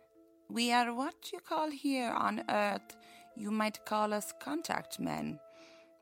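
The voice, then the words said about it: Put-on Russian accent. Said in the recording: “you sound Russian... from a small village in northern Russia... it's totally Russian”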